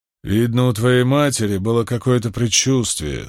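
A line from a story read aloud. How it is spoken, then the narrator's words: Smiling grumble. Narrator (Russian): с улыбкой проворчал Брин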